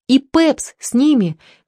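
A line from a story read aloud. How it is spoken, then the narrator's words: Shouting after someone. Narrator (Russian): кричал ему вслед Алеша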